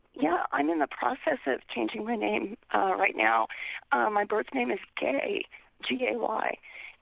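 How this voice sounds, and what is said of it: Unwell, rough-sounding voice. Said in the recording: “pardon my voice. I'm getting over the flu.”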